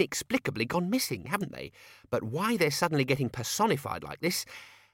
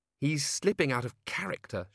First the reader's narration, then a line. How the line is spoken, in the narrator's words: she muttered, to the hall in general